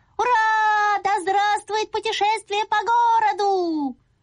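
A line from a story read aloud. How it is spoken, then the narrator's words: Overjoyed full-throated yell. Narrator (Russian): очень обрадовался и завопил во все горло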